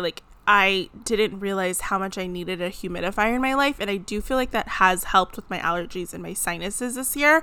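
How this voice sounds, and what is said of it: Nasal, congested voice. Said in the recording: “I sound a little nasally, a little congested”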